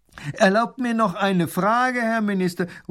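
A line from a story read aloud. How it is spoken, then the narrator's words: Shout from crowd. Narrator (German): ruft ein Mann aus der Menge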